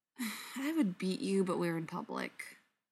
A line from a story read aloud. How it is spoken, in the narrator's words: sighs